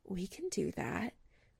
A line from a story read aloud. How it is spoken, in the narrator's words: whispering